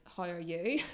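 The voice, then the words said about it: Northern Irish accent. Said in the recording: “those are like both really Northern Irish”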